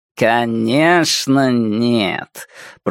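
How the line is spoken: Drawling. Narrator (Russian): протянул Джейго

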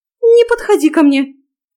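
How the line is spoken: Shriek. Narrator (Russian): взвизгнула она

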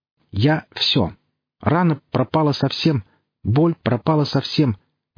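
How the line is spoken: Cheerful declaration. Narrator (Russian): весело заявила псионик

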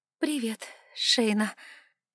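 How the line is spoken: Uncertain mumble. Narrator (Russian): промямлила я неуверенно

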